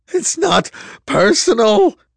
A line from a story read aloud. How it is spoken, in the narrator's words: he cried